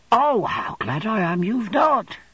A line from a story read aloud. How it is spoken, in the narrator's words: exclaimed Uriah with rapture